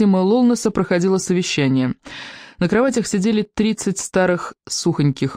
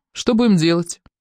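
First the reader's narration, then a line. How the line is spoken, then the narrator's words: Muffled gurgling grumble through crack. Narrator (Russian): Сквозь щель донеслись странные звуки, что-то вроде журчания и ворчания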